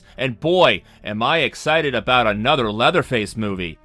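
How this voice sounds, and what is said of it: Flat, emotionless deadpan delivery. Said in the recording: “You said that with all the emotion of Kay... that was my Ryan Gosling impression”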